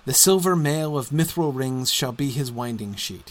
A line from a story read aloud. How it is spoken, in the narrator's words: he said